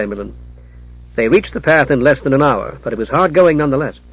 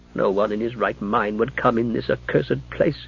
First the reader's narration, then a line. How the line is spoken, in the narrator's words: grumbled Alfred